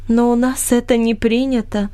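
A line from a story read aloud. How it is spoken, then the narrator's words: Calm. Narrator (Russian): спокойно ответила Амри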